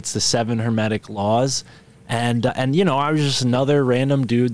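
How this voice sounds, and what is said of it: East Coast American accent. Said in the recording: “the East Coast accent here”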